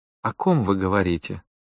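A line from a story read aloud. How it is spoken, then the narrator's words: Silky insinuating question. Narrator (Russian): вкрадчиво спросила Клотильда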